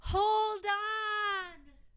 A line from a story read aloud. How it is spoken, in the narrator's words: She shouted, although no one heard her, not even herself